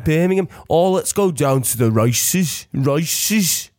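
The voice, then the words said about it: Put-on Birmingham accent. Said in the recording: “my accent from Peaky Blinders ... Have a little Peaky Blinders thing ... I'll do mine.”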